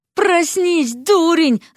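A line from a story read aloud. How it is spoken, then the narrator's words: Yelled. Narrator (Russian): завопила Вася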